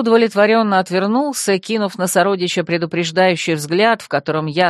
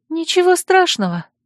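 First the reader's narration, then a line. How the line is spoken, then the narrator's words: Guilty sigh. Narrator (Russian): вздохнула Мелисса, чувствуя себя виноватой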